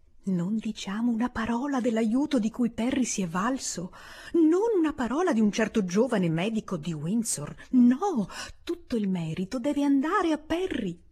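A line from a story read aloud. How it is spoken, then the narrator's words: Whispered. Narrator (Italian): riprese a bisbigliare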